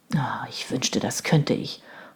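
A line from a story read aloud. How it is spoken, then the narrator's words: Sullen mutter. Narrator (German): murmelte Robert missmutig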